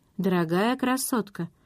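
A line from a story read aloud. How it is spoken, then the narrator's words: Soft. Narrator (Russian): мягко сказал Ред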